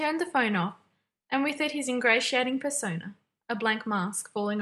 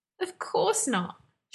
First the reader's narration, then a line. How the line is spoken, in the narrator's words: Sherlock said, and laughed a high, insincere laugh